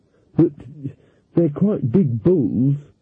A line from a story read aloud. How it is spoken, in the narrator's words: said Magrat nervously